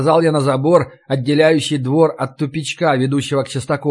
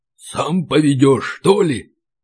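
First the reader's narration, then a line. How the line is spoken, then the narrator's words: Deep guttural indignant whisper. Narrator (Russian): Густым утробным шепотом спросил возмущенный Ори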